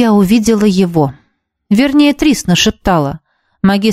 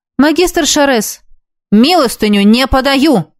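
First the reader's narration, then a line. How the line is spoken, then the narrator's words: Barked. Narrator (Russian): рявкнул он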